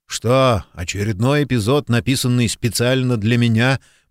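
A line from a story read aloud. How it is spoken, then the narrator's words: Muttering. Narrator (Russian): буркнул он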